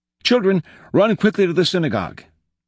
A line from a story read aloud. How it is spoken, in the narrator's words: he cried